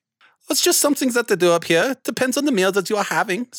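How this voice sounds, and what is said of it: Speaks with a noticeable accent. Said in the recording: “What a wonderful accent you have.”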